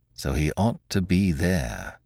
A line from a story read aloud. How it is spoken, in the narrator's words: Monsieur Filleul muttered